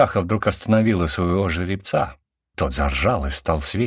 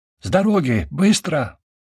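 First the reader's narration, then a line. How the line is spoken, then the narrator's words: Crying out. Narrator (Russian): скрикнула она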